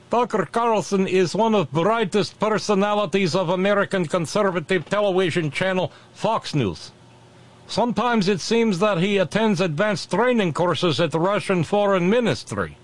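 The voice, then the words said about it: Put-on Russian accent. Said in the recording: “the stupid accent”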